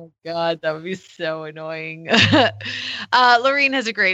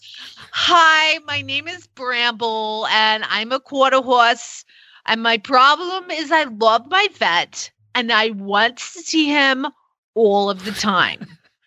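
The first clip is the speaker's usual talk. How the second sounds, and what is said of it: Put-on New Jersey accent. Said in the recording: “I wonder if her horse has a New Jersey accent.”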